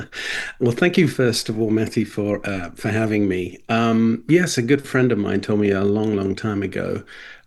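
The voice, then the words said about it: Non-Texan accent. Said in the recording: “As listeners may detect from your accent, you're not a Texas native”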